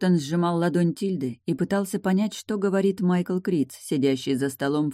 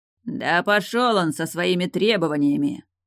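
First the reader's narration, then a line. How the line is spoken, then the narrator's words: Sudden angry bark. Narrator (Russian): внезапно рявкнул Фиери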